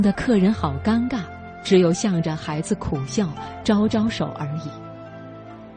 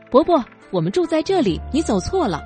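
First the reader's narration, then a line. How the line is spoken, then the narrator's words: Child shouting innocently. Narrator (Chinese): 孩子天真无邪的好心，大声叫着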